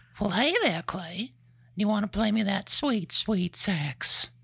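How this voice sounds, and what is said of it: Cartoon character voice impression. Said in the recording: “guess that Family Guy character ... Who's your favorite Family Guy character? Do your impersonation.”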